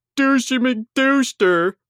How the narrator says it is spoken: someone shouted

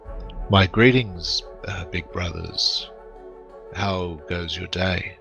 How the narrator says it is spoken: Jace in a low, calm voice, he says

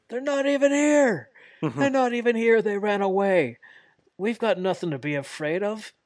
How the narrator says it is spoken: Moxley yells

